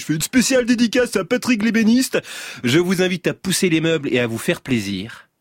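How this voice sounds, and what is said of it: Radio DJ voice. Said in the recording (French): “je vais prendre ma voix de DJ”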